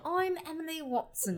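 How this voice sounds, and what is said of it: Attempted British accent. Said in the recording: “I was trying to be British, but it did not translate.”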